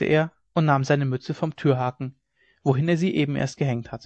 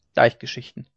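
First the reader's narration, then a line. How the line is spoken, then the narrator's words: Murmuring to himself. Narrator (German): murmelte er vor sich hin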